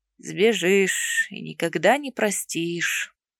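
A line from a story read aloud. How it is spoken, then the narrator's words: Heavy sigh. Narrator (Russian): Тяжело вздохнул Ревен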